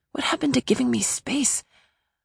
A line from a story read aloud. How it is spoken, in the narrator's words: I groaned